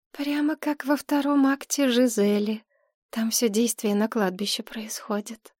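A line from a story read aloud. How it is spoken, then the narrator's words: Dreamy voice. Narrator (Russian): сказала Мария отчего-то мечтательным голосом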